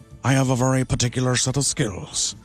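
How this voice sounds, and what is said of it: Liam Neeson impression. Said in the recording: “comedian and impressionist ... dead-on impressions like Liam Neeson”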